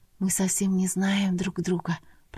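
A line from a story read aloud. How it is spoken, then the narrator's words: Whispered. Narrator (Russian): прошептала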